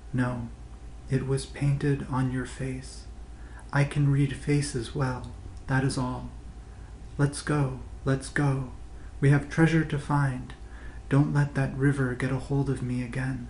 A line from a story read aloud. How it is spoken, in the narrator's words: The stone whispers